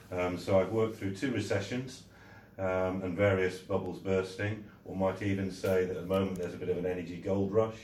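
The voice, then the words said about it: Slight Yorkshire accent. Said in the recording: “I was based for a very, very long time in Yorkshire, which may be betrayed by my accent a little bit”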